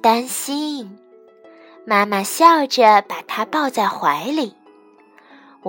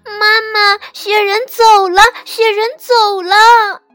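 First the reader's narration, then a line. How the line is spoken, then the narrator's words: Crying. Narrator (Chinese): 小兔子…哭着对妈妈说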